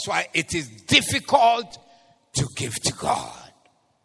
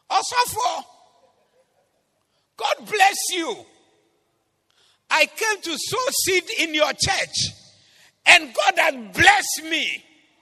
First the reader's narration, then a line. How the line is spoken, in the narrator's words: he shouted across from his car